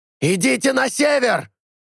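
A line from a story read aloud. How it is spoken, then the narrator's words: Shouting. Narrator (Russian): закричал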